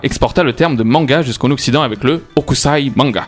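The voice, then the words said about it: Slight put-on accent. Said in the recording (French): “Je mets un petit accent”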